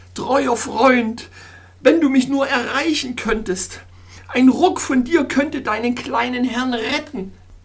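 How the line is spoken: Groaning. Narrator (German): stöhnte

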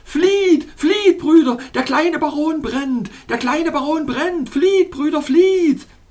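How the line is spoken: Frightened screaming crowd. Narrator (German): Die verängstigten Koltikwerps flohen vor mir in alle Richtungen und schrien dabei

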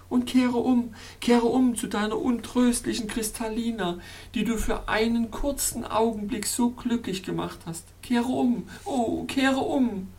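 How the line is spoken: Whimpering, wretched weeping. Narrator (German): wimmern und jämmerlichst zu weinen

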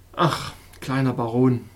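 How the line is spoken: Wise doctor sighing. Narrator (German): fuhr der weise Doktor seufzend fort

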